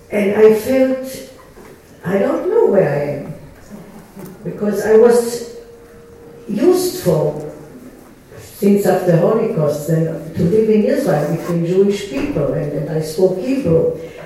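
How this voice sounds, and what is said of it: Israeli Hebrew-accented English. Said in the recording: “You still can hear my accent in English.”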